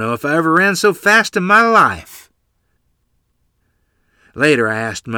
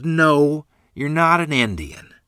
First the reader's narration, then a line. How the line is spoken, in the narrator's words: Mother chuckled